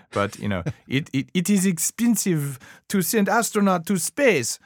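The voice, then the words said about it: Put-on Russian accent. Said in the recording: “I'm going to hack my Russian accent”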